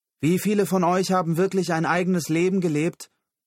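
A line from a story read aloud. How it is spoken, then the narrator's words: Called downward. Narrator (German): rief er hinunter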